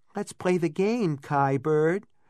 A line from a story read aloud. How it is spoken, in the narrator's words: Roget cooed